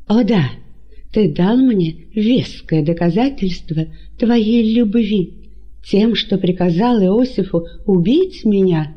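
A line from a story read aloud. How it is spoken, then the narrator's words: Indignant exclamation. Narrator (Russian): С негодованием воскликнула Мариамна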